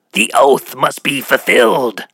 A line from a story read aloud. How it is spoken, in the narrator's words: he shrieked in his otherworldly multi-toned voice